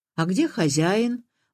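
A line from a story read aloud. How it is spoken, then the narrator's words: Cheerful brisk question. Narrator (Russian): бодрым голосом спросил он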